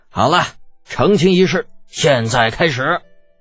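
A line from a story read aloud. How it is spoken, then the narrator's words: Loud shout. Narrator (Chinese): 李靖 大声的喊着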